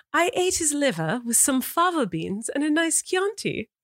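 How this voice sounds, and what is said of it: Proper British accent, put on. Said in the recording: “British accent ... like proper ... This is the worst accent ever ... That's very Downton of you. It's very Downton Abbey.”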